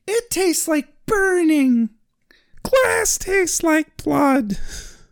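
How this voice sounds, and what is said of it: Falsetto character voice. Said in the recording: “the only voice I can do well... it's just basic falsetto, but good”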